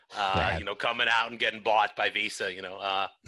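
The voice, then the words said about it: Bad put-on Boston accent. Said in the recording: “we got to get our Boston accents on ... That was a horrible Boston accent”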